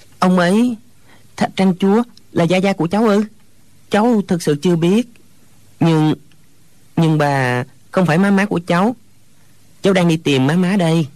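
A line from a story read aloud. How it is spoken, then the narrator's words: Hesitant stammering. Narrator (Vietnamese): Hồi lâu chàng mới ấp úng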